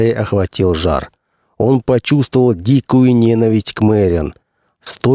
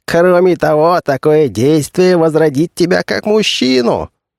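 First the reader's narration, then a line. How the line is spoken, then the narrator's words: Laughing loudly. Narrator (Russian): захохотал Али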